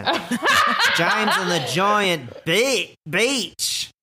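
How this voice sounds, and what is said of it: Put-on Australian accent. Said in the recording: “I'm saying the word bitch in an Australian accent.”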